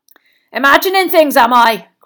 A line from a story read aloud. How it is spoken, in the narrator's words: growled Moody